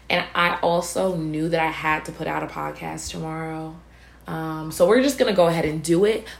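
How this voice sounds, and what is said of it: Strained, fading voice. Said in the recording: “I'm losing my voice right now”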